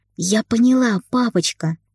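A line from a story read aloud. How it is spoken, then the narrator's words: Joyful, smiling. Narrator (Russian): радостно улыбнулась Ника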